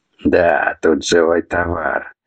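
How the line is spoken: Chuckle from darkness. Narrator (Russian): хохотнул кто-то из темноты

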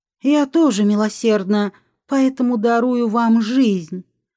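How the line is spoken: Breathed into face. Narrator (Russian): Алекс выдохнул ему в лицо

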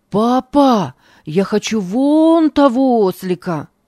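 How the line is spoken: Shout. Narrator (Russian): крикнул он

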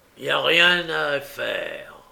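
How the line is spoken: Said coldly. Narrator (French): dit froidement Sykes

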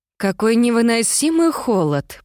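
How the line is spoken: Groan. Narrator (Russian): простонала Мирабель

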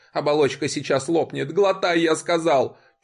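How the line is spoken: Old man nearly screaming. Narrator (Russian): чуть ли не вопил старик

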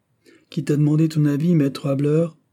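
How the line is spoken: Curt reply. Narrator (French): répondit sèchement Graviel

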